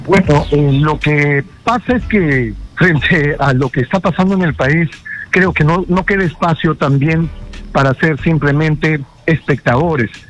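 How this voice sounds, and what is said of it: Trained, polished radio announcer voice. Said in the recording (Spanish): “tienes una voz muy muy muy trabajada, voz de locutor.”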